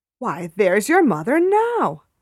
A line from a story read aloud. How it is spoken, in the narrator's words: I exclaimed with joy